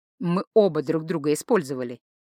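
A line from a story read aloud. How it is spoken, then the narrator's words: Gentle correction. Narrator (Russian): мягко поправил маг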